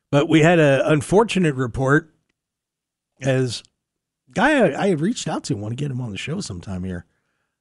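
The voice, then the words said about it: Voice wearing out, slightly strained. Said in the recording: “You can hear my voice is starting to wear out a little bit.”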